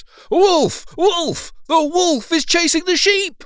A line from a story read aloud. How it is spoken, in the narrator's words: he cried out at the top of his voice